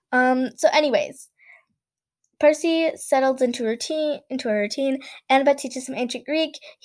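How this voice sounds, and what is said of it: Strained, tired voice. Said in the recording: “My voice wouldn't be able to handle that either... you can already tell my voice is... my voice just can't handle more than 15 minutes of speaking... Wow, I can't talk.”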